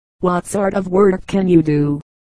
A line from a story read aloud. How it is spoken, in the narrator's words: he asked